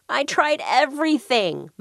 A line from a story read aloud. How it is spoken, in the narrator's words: moaned Mr